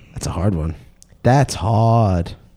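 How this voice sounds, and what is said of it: Bronx-style movie character voice. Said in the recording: “That was my Bronx Tale impression.”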